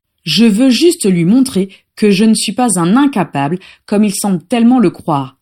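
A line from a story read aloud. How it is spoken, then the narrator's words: Plain. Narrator (French): dit finalement Lucius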